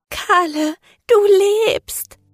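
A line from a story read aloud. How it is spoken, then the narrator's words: Sobbing. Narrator (German): schluchzte sie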